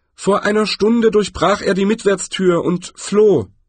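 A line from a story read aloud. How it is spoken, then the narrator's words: Called through cupped hands. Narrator (German): Der Schatzmeister hob die Hände, formte damit einen Trichter vor den Mund und rief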